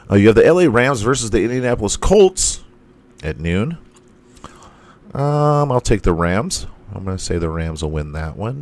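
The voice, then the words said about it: Strained, failing voice. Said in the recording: “I'm losing my voice tonight”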